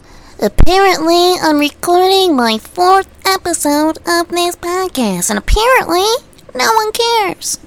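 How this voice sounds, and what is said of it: Imitates another person's voice. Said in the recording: “That's my best impression of...”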